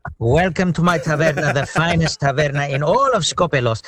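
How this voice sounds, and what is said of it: Put-on Greek accent. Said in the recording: “my dad has the same accent ... to do the accent feels easy”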